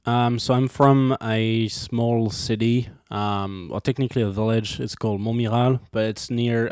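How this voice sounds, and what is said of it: French accent in English. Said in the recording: “you hear his accent. He is from France”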